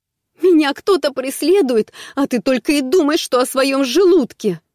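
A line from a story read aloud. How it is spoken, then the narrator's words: Near-shrieking, helpless rage. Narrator (Russian): почти визжала Марго в бессильной злобе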